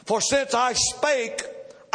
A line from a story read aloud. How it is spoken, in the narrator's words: I cried out